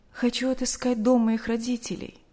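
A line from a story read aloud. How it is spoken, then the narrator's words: After a deep sigh. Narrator (Russian): глубоко вздохнув, сказала Наташа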